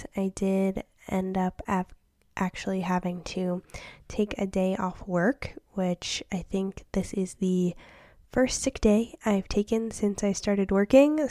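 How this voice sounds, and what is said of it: Slightly off, sick-sounding voice. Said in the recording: “my voice sounds a little off ... I have a really bad cold”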